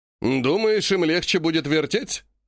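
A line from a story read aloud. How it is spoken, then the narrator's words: Scoffing snort. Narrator (Russian): хмыкнул Греков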